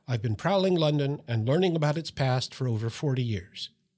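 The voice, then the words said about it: Speaks with a non-local accent. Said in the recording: “Despite my accent”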